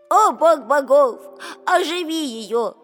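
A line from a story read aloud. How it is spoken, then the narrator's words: Pleading young man. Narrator (Russian): взмолился юноша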